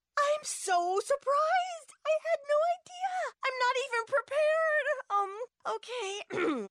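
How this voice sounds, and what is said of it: Gushing Hollywood acceptance speech impression. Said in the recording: “my impression of a Hollywood acceptance speech”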